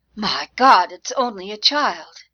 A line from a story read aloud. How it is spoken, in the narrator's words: Sergeant Brown threw his head back and gasped